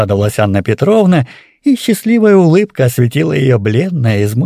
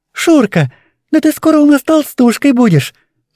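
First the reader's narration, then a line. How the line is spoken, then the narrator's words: Said cheerfully. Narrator (Russian): проговорила весело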